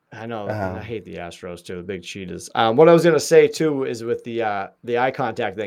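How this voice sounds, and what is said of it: Boston accent. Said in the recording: “your accent reminds me of my family too. I have a lot of family from Boston. So, you know, you have that same accent.”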